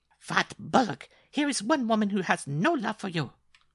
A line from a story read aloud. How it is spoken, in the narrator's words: cried Mademoiselle Lupa